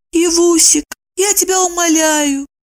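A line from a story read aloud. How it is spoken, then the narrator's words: Squeaky. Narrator (Russian): пропищала Евдокия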